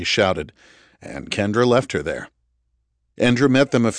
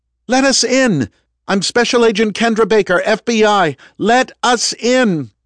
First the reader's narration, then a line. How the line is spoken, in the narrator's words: Kendra shouted